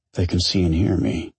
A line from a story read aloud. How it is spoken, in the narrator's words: he mumbled